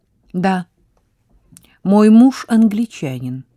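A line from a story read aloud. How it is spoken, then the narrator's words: Plain. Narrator (Russian): ответила она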